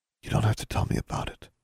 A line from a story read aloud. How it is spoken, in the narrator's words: Anna said softly